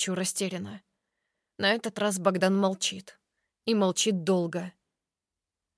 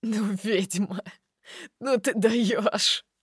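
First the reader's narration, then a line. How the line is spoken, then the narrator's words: Laughing. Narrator (Russian): Продолжает смеяться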